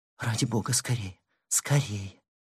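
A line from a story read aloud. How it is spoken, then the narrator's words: Frightened girl's hurried whisper. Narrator (Russian): Девушка вся сжалась от ощущения инстинктивного страха и торопливо прошептала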